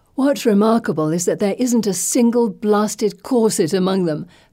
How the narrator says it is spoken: Felicity says with a giggle

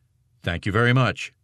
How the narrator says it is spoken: Sink said

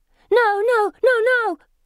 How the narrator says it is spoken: she shouts to the air

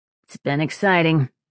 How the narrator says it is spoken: Sparrow said in a dry tone

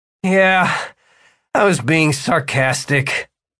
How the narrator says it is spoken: Martin groaned

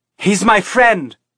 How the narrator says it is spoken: Teresa shouted

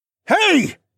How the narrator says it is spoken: voices shouted

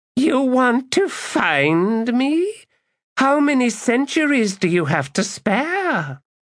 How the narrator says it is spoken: A cackle, and then

